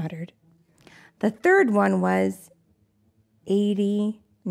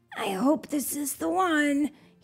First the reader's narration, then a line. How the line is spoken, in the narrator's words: he whispered